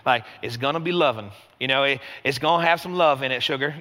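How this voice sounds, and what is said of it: Put-on Southern drawl. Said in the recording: “I keep hearing this in my head with a southern accent ... suddenly you want to talk with a draw”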